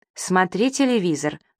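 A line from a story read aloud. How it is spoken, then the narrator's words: Stern order. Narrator (Russian): строго велела ей Светик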